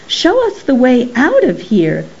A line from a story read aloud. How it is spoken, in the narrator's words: cried Rosie